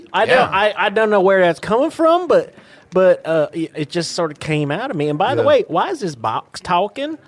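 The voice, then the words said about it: West Virginia accent. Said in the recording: “I like your accent. You from West Virginia?”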